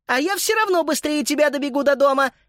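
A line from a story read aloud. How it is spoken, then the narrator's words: Shouted over shoulder. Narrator (Russian): крикнула через плечо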